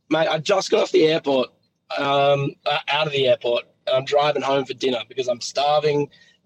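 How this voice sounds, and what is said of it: Hoarse, nearly lost voice. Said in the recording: “I've lost my voice.”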